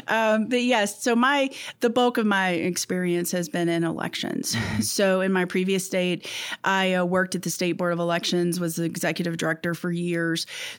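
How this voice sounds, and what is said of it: Southern American accent. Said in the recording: “I do come from Kentucky. That southern accent always kind of comes out in that chatting.”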